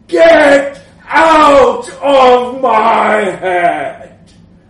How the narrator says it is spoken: I bellowed for the last time

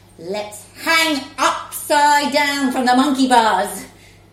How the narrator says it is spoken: A different mum shouted

